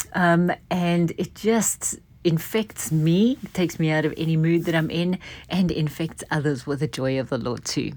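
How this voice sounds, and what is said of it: Thick accent, talking through a smile. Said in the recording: “My accent becomes even thicker because I'm trying to talk through my smile like I'm trying to do now”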